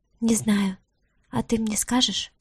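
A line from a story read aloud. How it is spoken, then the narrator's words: Confused whisper. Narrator (Russian): прошептала она, не понимая, что происходит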